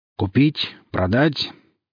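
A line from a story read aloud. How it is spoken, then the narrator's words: Deep, strong voice. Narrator (Russian): глубоким, сильным голосом спросил он меня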